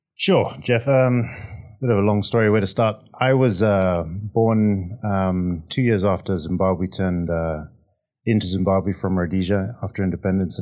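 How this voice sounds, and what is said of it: Slight accent. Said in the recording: “you got a little bit of an accent.”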